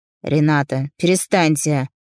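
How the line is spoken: Stern, curt. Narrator (Russian): строго отрезал он

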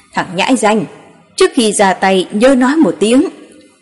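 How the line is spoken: Angry. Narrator (Vietnamese): Nho Thánh giận dữ trừng mắt nói

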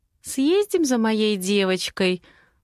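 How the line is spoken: Gentle, affectionate voice. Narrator (Russian): Ласковым голоском предлагаю я

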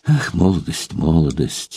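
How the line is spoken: Sighing. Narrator (Russian): вновь вздохнула Марья Николаевна

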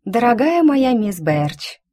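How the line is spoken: Unctuous drawl. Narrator (Russian): елейным тоном протянула я

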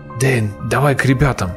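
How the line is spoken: Whisper. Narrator (Russian): прошептал Ираклий

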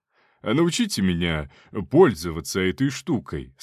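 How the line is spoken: Plain. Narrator (Russian): сказал он

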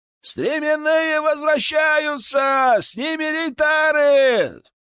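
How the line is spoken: Distant shout from wall. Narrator (Russian): прокричали со стены

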